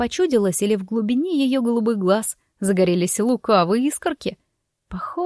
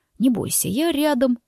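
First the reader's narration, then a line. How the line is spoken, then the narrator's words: Sudden whisper. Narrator (Russian): неожиданно шепнул он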